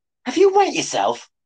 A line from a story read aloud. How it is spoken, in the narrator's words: She exclaimed